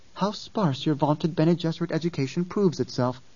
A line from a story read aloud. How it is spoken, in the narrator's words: Ghanima said